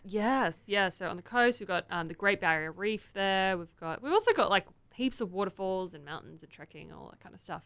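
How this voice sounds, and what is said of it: Australian accent. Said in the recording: “And you are from Australia. ... Where's the accent from right away?”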